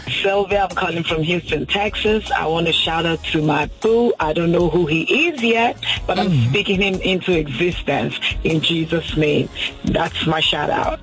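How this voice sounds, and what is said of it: Strong regional accent. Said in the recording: “did you hear the accent? ... It was amazing”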